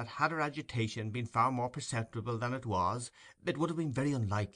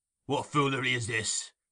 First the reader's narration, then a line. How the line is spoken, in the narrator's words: demanded Sikes